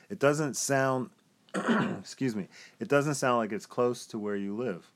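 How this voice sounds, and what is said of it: Raspy voice. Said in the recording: “my voice sounds so raspy”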